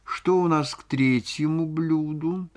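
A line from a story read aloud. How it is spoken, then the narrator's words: Languid, suffering question. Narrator (Russian): спросила она у лакея томным страдальческим голосом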